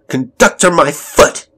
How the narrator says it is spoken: shouted Elizabeth

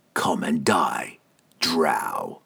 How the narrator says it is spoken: he spat

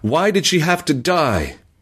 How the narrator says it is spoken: he cried loudly enough that even the roar of the falls was overcome

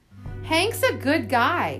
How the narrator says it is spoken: yelled

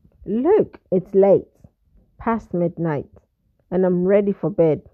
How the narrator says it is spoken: he replied curtly

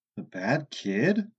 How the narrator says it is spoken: Lucas said in his most incredulous tone

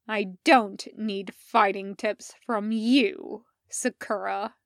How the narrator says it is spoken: snarls

